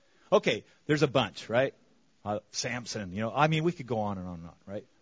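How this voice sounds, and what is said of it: Speaks with a noticeable accent. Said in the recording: “sorry for my accent,”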